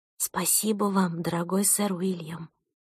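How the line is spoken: Whispered to herself. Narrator (Russian): прошептала про себя

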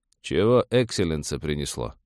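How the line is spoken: Lazy question. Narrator (Russian): лениво поинтересовался парень, сидящий в будке КПП

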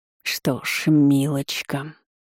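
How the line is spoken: Ominous drawl. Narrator (Russian): зловеще протянул док

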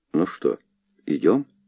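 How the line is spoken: Plain question. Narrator (Russian): спросил я

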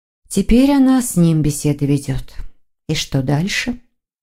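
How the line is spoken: Sighing. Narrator (Russian): вздохнула Воронцова

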